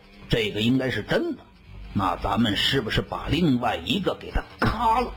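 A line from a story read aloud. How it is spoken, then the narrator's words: Soft whisper. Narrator (Chinese): 小刘立刻在我耳边轻声地说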